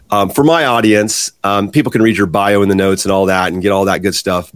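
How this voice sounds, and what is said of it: Hoarse voice. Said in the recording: “I'm a little hoarse today”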